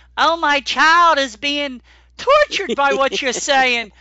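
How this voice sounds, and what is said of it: Complaining Karen-type mock accent. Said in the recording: “that appropriate accent ... I hear a lot of Karens”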